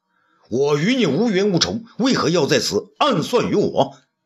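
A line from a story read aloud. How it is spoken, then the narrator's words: Angry question. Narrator (Chinese): 周安世 怒而问道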